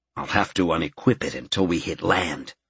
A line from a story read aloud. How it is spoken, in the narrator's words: Gerald muttered